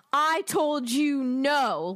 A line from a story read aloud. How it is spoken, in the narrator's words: Lucius Malfoy roared at the woman